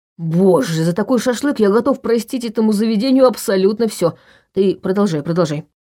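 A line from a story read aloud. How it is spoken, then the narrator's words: Plain. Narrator (Russian): сказал он Айе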